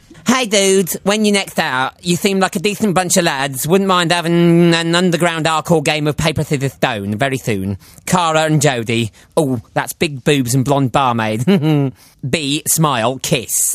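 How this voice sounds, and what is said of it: Imitates another person's voice. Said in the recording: “why is he doing an Alan Carr impression?”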